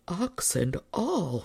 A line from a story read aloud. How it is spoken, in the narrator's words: kept muttering to himself